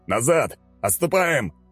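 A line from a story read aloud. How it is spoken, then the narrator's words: Yelling. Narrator (Russian): заорал он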